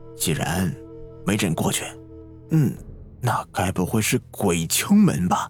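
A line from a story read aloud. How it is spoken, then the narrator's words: Hushed voice. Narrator (Chinese): 老天压低声音说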